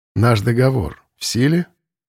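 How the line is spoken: Bored voice. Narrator (Russian): спросил он скучным голосом

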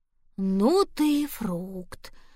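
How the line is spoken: Breathed exclamation. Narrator (Russian): выдохнула тогда впервые тетя Галя

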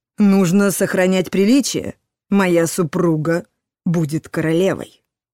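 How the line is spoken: Stern. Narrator (Russian): строго сказал Этельред

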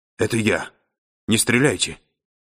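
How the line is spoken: Strangled attempt at whisper. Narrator (Russian): Мичман говорил придушенным голосом, долженствовавшим изобразить шепот

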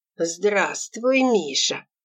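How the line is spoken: Gentle hissing voice. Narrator (Russian): ласково шипящим голосом произнес он

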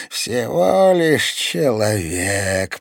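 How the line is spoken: Eerie guttural growl. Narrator (Russian): прорычала она жутким утробным голосом

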